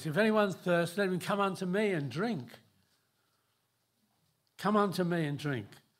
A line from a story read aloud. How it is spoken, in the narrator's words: he cries out this